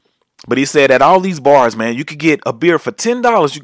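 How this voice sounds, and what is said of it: Usual voice. Nothing is said of it.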